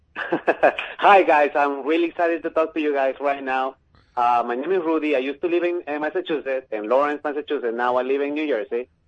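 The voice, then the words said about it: Heavy Peruvian Spanish accent. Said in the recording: “my heavy accent, eh? I'm from Peru.”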